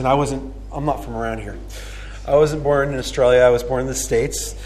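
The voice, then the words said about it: American accent. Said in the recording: “you can probably hear from my accent”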